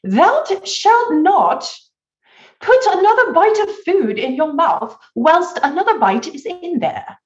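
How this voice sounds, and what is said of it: Put-on posh British accent. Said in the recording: “in my best British etiquette accent”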